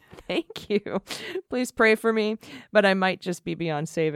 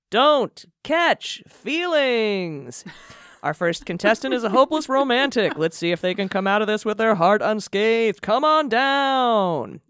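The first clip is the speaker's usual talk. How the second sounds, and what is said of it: Game show host voice. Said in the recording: “game show voice”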